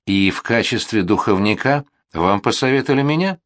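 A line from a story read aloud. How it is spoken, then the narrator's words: Calmer, smiling. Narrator (Russian): Уже более спокойно улыбнулась Доранж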